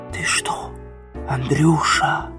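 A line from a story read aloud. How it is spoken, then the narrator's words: Whisper from behind door. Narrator (Russian): Послышался шепот из-за двери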